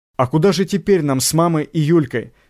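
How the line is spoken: Plain question. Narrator (Russian): спросила Катя

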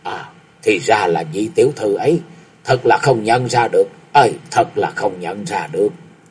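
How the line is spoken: Surprised soft exclamation. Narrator (Vietnamese): Tào Minh Sanh sửng sốt khẽ ồ lên một tiếng rồi đoạn nói

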